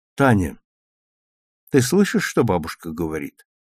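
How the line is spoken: Sad question. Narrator (Russian): грустно спросила мама

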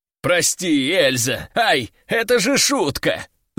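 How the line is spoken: Little man yelling. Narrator (Russian): завопил мужичок

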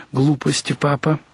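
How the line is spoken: Gentle, soft. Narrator (Russian): сказал Сергей беззлобно и мягко

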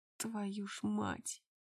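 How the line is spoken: Muttered through teeth. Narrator (Russian): процедил он сквозь зубы

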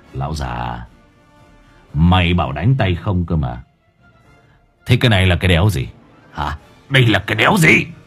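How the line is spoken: Mocking. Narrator (Vietnamese): Mày Phong giọng mỉa mai

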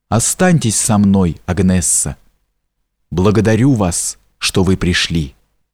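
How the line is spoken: Quiet reply. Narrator (Russian): так же тихо, как говорила она, сказал в ответ ей

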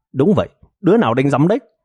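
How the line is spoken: Loud complaining, nose pinched. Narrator (Vietnamese): bịt mũi lại, lớn tiếng oán giận nói

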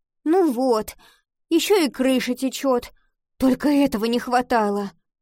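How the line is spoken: Groaning. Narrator (Russian): простонала она

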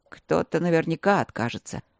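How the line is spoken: Calm confirmation. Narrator (Russian): спокойно подтвердил Демьян

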